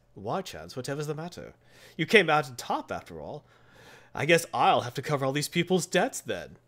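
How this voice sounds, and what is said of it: Put-on British accent. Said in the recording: “British accent.”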